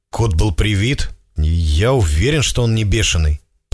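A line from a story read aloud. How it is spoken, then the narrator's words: Through gritted teeth. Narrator (Russian): процедил Миша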